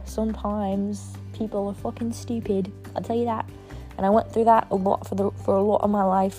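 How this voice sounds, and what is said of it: Put-on British drifting to Irish accent. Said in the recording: “I don't even know what accent I'm talking in. It was British, and then it turned fucking, what, Irish?”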